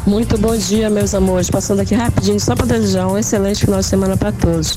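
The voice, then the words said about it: Sounds sick, weak voice. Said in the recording (Portuguese): “Tá com cara de dodói, né? ... tá com vozinha de dodói”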